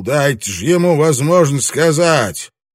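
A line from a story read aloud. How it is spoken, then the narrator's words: Barked shout. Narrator (Russian): Винг гаркнул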